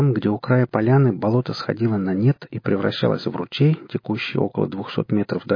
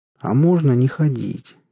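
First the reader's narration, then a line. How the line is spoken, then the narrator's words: Sad question. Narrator (Russian): печально спросил топор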